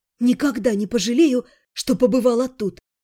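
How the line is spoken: Choked exhale. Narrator (Russian): сдавленно выдохнула я

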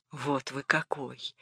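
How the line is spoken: Whisper. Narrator (Russian): Шепот

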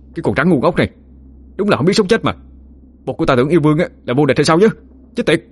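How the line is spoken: Furious shout through gritted teeth. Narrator (Vietnamese): Khá cũng tái xám mặt mày, nghiến răng nghiến lợi, phẫn nộ mà hét lên

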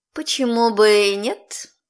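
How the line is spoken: Purring. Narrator (Russian): промурлыкала я

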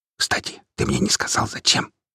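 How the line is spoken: Whispered. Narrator (Russian): шепнул мне Макс

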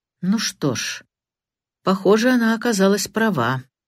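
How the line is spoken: Gloomy. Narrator (Russian): мрачно произнес Сэрроколд

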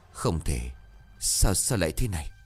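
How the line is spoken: Hoarse whisper. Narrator (Vietnamese): Giọng của bà khàn khàn thì thào

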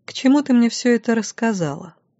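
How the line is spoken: Plain question. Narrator (Russian): наконец спросила я

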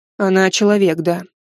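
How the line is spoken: Tired. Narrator (Russian): устало произнес Кайлин

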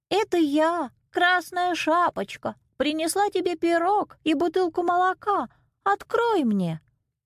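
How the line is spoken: Thin disguised voice. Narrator (Russian): ответил волк тонким голоском

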